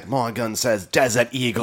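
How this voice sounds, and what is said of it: Badly done put-on accent. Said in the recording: “Totally butchered that accent.”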